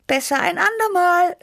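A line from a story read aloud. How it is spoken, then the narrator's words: Called out. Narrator (German): rief ich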